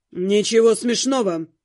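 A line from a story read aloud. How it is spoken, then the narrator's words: Cold. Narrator (Russian): сказал брюнет холодно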